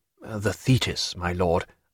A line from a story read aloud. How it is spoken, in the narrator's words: whispered his private secretary